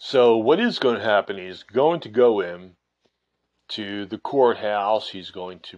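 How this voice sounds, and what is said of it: Usual voice. Nothing is said of it.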